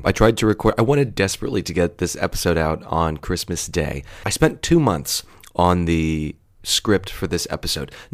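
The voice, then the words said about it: Sick, extra deep voice. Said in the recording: “I'm a little sick, and my voice is extra deep because I'm recording this first thing on Christmas morning.”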